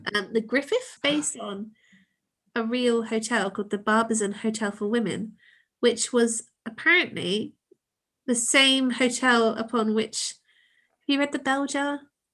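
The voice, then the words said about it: Congested voice from a cold. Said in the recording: “I've got such a cold. I'm so sorry. My voice is like, oh.”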